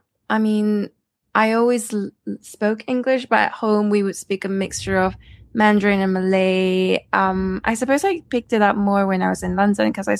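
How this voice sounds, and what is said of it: British accent. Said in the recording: “you have a British accent”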